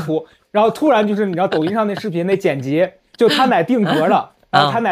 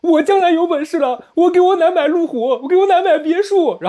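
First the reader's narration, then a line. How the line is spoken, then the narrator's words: Crying man. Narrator (Chinese): 一个胖子 一直一边哭一边说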